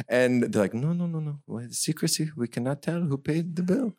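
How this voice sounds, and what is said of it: Put-on French accent. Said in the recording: “this French accent”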